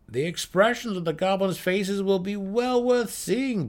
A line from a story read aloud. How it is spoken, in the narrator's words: Brickers laughed to Drizzt